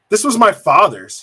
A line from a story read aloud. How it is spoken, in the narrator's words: he snapped at her, the rim of his mouth beginning to foam